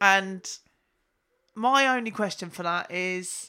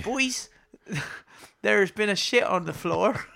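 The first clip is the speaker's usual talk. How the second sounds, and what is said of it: Put-on Bristol accent. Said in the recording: “I can do a Bristol accent quite well when I'm not being recorded.”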